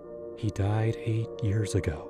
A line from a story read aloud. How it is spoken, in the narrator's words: I whispered to myself, like a mantra